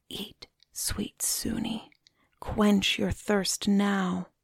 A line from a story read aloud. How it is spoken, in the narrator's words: She heard the king whisper